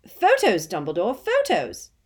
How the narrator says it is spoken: cried Bagman excitedly

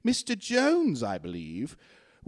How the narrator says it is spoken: A man exclaimed

